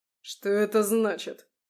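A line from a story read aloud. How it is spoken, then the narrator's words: Gritted teeth. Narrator (Russian): процедил он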